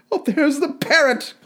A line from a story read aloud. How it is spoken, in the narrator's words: cried Scrooge